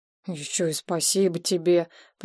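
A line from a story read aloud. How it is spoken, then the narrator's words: Grumbling. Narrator (Russian): проворчал извозчик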